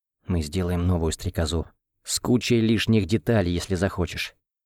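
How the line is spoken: Whisper. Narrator (Russian): прошептал я ей

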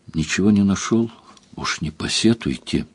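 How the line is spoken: Quiet. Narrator (Russian): тихо сказал

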